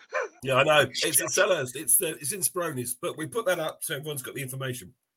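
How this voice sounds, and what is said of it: Hoarse, failing voice. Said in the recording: “When you start coughing. ... I'm losing my voice.”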